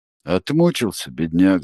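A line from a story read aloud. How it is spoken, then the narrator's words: Hoarse. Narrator (Russian): сказал Стась хрипло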